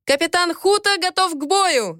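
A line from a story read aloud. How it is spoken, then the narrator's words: Soldier yelling. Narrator (Russian): заорал кто-то из солдат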